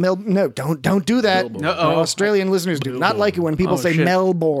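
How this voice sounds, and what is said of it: Usual voice. Nothing is said of it.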